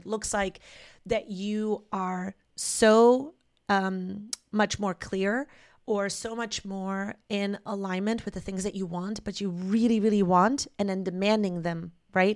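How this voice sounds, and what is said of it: Voice cracking, sounds sick. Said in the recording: “my voice is cracking a little bit. I'm still dealing with this sickness from last week.”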